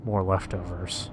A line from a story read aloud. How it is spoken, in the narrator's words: Joe murmured to me